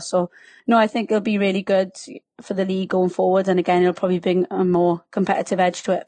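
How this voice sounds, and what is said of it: Strong Welsh accent. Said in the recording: “we can detect a strong Welsh accent there ... can you tell I'm Welsh by my subtle accent?”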